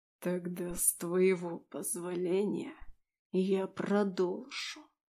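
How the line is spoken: Hiss. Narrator (Russian): прошипел он

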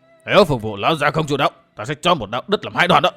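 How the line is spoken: Loud barking threat. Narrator (Vietnamese): một người cao lớn, mắt như mắt cú nạt lớn

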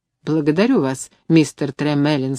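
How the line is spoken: Plain. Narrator (Russian): сказала я

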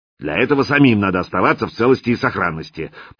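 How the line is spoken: Grumbling. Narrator (Russian): проворчал я

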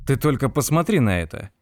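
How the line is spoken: Barked loudly. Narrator (Russian): гаркнул Лойс

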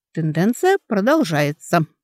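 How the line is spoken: Thoughtful. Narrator (Russian): задумчиво сказала Алекса

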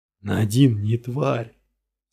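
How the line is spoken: Hoarse shouting. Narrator (Russian): Снова закричал Гирт охрипшим голосом

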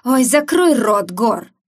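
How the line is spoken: Barked. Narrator (Russian): рявкнул Айденион, чувствуя, как начинает болеть голова

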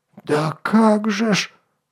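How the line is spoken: Groaning. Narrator (Russian): застонал староста

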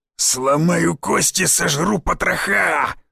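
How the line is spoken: Growling. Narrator (Russian): зарычал молот

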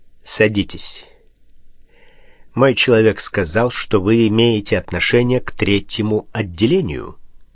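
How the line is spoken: Neutral tone. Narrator (Russian): он сказал нейтральным тоном

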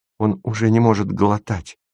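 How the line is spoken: Quiet explanation. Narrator (Russian): тихо поясняет Маша

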